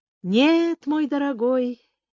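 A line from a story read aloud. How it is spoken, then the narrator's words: Soft but firm objection. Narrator (Russian): мягко, но решительно возразила актриса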